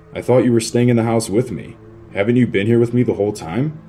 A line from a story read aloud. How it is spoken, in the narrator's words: In a shaky, trembling voice, I said